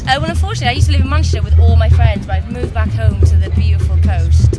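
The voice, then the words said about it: Welsh accent. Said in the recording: “I come from Wales, as the accent may suggest.”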